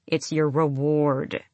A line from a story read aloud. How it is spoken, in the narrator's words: she said through her teeth